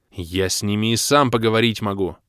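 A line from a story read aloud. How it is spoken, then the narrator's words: Offended bark. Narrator (Russian): оскорбленно рявкнул я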